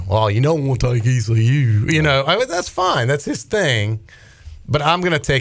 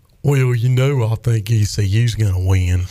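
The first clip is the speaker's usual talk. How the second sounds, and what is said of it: Imitates another person's voice. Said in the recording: “Do you like my Bryce Williams impersonation? ... Dang. Yeah, that was pretty good.”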